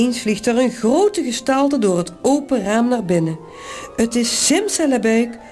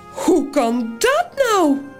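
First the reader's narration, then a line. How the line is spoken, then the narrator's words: Piglet, high voice. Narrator (Dutch): zegt het varkentje met de hoge stem van Toos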